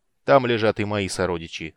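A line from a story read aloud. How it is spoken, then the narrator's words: Calm. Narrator (Russian): спокойно ответил Арман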